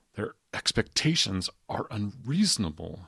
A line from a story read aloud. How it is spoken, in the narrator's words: said in a strained whisper